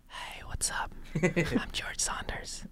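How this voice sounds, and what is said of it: Soft, whispery ASMR-style impression. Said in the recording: “my George Saunders impression ... That's an ASMR video ... He says that into your ear when you're sleeping.”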